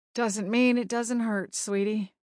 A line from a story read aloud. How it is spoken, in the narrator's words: she said softly